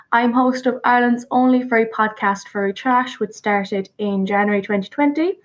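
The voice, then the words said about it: Irish accent. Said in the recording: “Obviously, I'm from Ireland, like I've said, and if my accent doesn't give it away”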